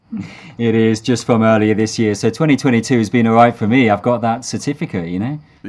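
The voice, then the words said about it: British English accent. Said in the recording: “You can probably hear the accent there ... the British accent”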